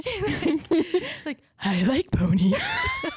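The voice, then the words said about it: Creepy doll voice from Boss Baby 2. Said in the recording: “a really good impression ... Boss Baby 2 ... the little creepy doll”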